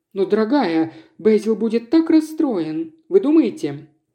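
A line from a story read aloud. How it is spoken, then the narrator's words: Young woman, brief laugh. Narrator (Russian): коротко рассмеялась девушка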